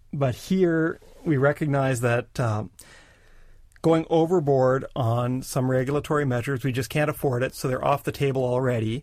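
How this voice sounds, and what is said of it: Canadian accent. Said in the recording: “it's a Canadian accent.”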